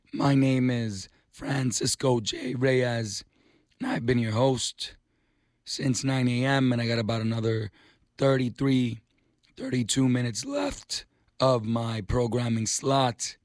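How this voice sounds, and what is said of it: Raspy voice. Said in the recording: “raspy voice, but I guess my vocal cords woke up today wanting to do the best Miles impression”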